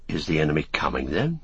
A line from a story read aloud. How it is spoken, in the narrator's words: asked Merry anxiously